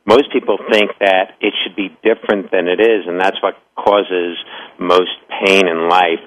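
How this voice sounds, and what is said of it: Pleasant-sounding accent. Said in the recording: “I love listening to your accent ... It's just so pleasant.”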